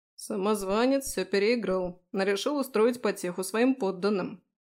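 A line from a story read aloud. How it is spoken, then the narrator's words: Grumbling. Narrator (Russian): проворчал Фрей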